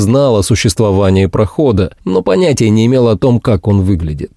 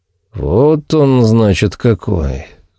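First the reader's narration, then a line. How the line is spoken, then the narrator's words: Breathed out. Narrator (Russian): выдохнул Фальк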